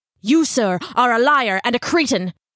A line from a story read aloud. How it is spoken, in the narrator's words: Ichabod snarled